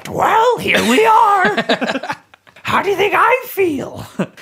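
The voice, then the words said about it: God character voice like a grandma. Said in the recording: “That's such a great Ra voice ... I did not think a god would sound like that ... I sound like a grandma!”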